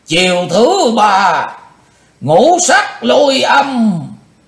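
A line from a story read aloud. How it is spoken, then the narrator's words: Sudden loud shout. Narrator (Vietnamese): Đột ngột Chung Ly Mộ Hoàng quát lớn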